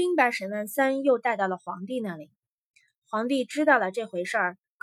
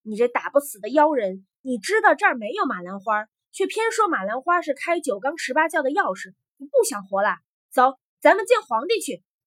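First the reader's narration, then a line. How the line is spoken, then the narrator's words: Loud angry scolding. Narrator (Chinese): 官儿也火了，大声的呵斥沈万三说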